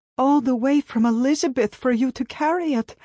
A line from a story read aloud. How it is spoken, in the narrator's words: I cried